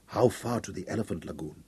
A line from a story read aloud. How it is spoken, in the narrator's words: Abberly asked Hal quietly